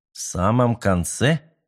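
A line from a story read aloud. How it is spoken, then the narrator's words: Calm questioning. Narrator (Russian): спокойно переспросил капитан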